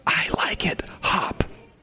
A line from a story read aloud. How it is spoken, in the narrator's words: Simply whisper